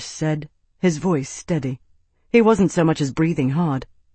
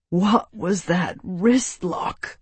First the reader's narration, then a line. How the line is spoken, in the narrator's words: He wheezed